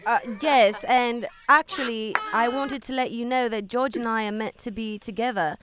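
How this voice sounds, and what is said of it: Fake British accent. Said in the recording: “Queens don't talk like that. Where are you from? Like Essex? ... You sound like trailer trash ... This has got to be like a fake British accent ... Where is this voice from?”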